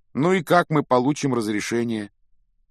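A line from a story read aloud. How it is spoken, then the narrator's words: Glum question. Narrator (Russian): уныло спросил Рон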